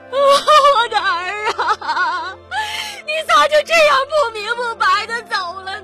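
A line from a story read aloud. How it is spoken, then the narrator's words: Shrill anguished wailing. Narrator (Chinese): 那妇女凄厉的哭嚎着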